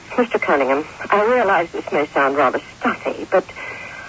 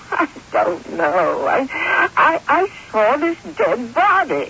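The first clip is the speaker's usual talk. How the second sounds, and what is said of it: Sniffling, tearful voice. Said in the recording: “quit that sniffling”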